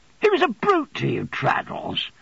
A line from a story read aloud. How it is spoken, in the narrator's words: said I indignantly, for his good humour made me feel as if I'd seen him beaten but yesterday